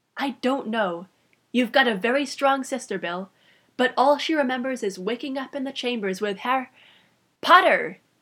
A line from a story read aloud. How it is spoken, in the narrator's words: exclaimed together